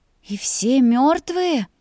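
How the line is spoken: Breathed out. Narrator (Russian): Выдохнула

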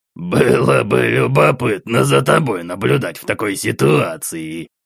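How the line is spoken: Old man's nasty chuckle. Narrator (Russian): мерзко хохотнул старик

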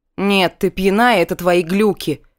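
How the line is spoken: Grumbling. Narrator (Russian): проворчала я

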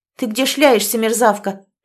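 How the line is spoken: Sharp scolding shout. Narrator (Russian): прикрикнула Ольга

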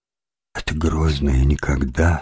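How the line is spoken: Sad, sighing. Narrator (Russian): сказал он печально и вздохнул

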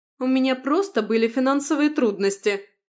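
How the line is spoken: Shouting. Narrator (Russian): крикнула Станислава

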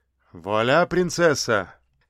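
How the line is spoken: Cheerful. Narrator (Russian): весело сказал

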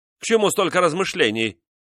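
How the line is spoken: Shout. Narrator (Russian): крикнул он

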